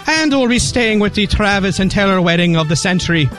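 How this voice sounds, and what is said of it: Put-on Irish accent. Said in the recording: “my Irish Sam accent”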